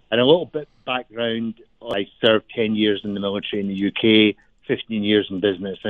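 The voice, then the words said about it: Scottish Glasgow accent. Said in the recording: “by my accent, I'm not from Colorado. I'm from Glasgow in Scotland”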